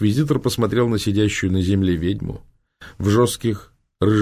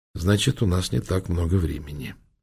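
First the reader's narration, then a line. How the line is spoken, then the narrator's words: Calm. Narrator (Russian): спокойно сказал инквизитор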